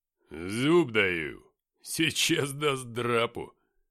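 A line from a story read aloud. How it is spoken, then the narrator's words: Grumbling. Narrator (Russian): проворчал Филиппыч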